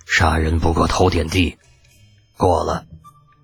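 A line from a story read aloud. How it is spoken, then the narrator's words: Sighing. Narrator (Chinese): 李靖叹了口气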